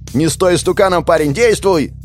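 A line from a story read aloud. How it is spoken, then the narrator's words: Shout. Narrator (Russian): крикнул он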